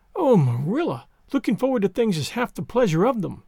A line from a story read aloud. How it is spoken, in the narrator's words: exclaimed Anne